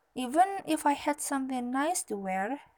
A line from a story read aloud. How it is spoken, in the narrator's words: said the girl